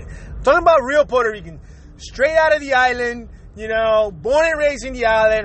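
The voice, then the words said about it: Heavy Spanish-influenced Puerto Rican accent. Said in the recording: “first language is Spanish, second language is English, that's why I have a heavy accent”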